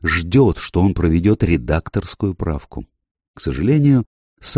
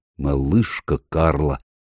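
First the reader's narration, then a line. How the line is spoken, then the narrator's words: Muttered. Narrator (Russian): пробормотал Мередит Блейк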